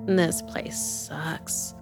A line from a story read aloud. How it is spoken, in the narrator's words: she muttered